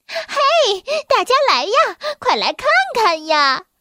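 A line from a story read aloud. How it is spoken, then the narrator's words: Sly loud shouting. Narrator (Chinese): 他不怀好意的笑了笑，他扯着嗓子叫喊道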